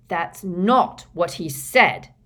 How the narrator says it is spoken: snarled Fred Weasley

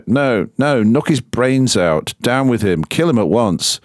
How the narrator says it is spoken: Many cried out

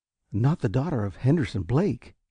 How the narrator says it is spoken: he gasped

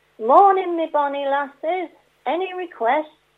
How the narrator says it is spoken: he called out to the fisherwoman

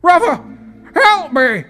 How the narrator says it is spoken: shouted Barry as the guards gripped his shoulders

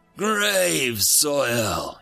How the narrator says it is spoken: he gasped

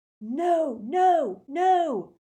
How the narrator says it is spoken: someone was shouting

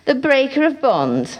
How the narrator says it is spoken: laughed the hybrid

